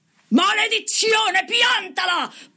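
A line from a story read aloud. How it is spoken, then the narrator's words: Shouting. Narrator (Italian): Paul D gridava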